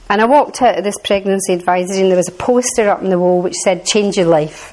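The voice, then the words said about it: Strong Glaswegian accent. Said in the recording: “if you think I had a strong Glaswegian”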